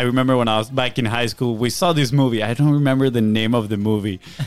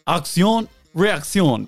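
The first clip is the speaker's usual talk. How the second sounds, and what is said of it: Put-on French accent. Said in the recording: “It was like French ... Great accent.”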